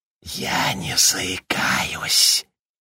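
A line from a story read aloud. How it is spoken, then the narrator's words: Whispered from behind. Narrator (Russian): прошептал Джордж из-за его спины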